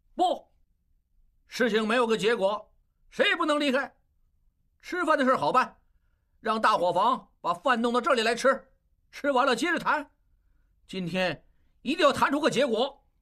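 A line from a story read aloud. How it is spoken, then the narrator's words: Shouting. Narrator (Chinese): 应震大叫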